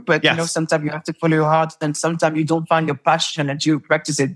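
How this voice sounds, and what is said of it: French accent. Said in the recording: “my accent. I am French”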